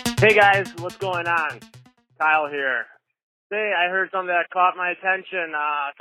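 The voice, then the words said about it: Wisconsin accent. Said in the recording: “the dulcet tones of his beautiful Wisconsin accent”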